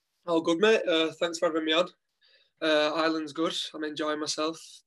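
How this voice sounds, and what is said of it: Strong Wigan accent. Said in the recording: “I can't get rid of the Wigan accent. ... it's a very strong accent.”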